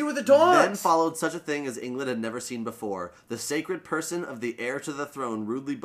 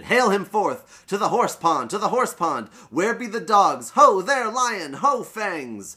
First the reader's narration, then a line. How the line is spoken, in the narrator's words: A dozen shouted